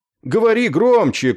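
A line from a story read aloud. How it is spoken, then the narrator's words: Shouting. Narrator (Russian): крикнул Кроха Сэмпсон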